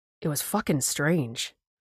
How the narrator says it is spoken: the SAR guy said, trying to keep his voice low so I wouldn't hear

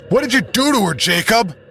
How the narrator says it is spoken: I yell

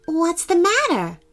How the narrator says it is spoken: asked Harrison gently

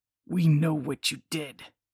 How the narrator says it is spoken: someone growled

